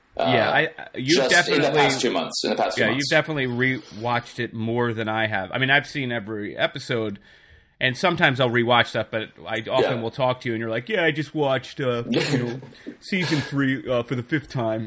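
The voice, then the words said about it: Imitates another person's voice. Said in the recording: “that wasn't me. That was ... doing an impression. I know it sounds ... like ... it's uncanny. It's almost like you're also here again.”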